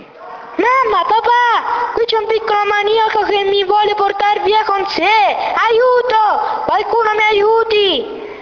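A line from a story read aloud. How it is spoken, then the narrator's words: Desperate scream. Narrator (Italian): urlò l'altra disperata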